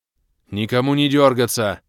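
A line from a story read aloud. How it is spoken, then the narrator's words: Growled command. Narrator (Russian): рыкнул я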